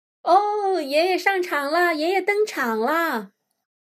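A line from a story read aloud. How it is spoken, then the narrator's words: Excited shouting. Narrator (Chinese): 我们鼓掌大叫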